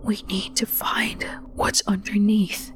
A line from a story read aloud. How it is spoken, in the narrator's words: he whispered